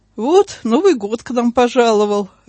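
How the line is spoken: Laughing. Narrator (Russian): рассмеялся Анатолий

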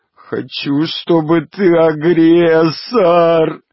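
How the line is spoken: Sobbing. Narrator (Russian): рыдает Пичуга

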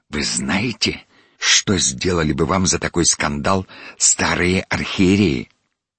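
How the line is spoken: Near-hissing undertone. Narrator (Russian): почти с шипением сказал мне вполголоса

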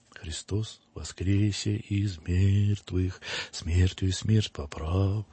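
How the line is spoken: Muffled, strange, in empty church. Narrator (Russian): Голос отца Петра звучал в пустой заброшенной церкви глухо и странно

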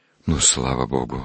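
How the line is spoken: Relieved sigh. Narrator (Russian): облегченно вздохнул отец Савелий

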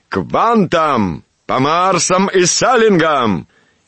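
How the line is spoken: Senior officer shouting. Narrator (Russian): крикнул старший офицер

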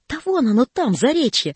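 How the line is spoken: Joyful inner thought. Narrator (Russian): радостно мелькнуло в голове путника

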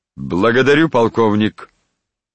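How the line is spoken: Loud, sovereign. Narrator (Russian): громко сказал государь

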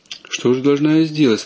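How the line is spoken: Plain. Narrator (Russian): спросила девица

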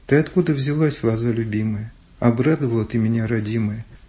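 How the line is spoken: Sung in Georgian. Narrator (Russian): он по-грузински поет

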